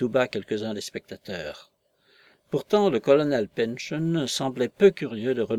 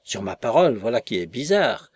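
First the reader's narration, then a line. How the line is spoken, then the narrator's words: Exclaiming, strained smile. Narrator (French): s'écria, dont le sourire commençait à grimacer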